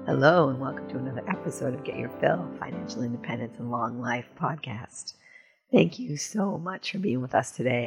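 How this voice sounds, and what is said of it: Hoarse, strained voice. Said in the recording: “I'm losing my voice today”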